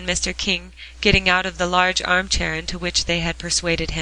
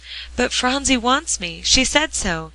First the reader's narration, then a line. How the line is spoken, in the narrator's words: exclaimed old Mr